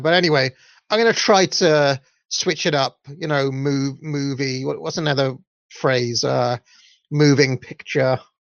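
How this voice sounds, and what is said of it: Welsh accent. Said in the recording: “in my Welsh accent”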